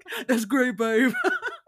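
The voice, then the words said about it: Mock man's voice with accent. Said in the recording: “how she thinks all men sound like ... I love the little accent too.”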